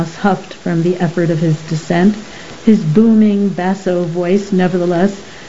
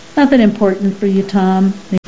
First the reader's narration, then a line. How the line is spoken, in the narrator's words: McNally answered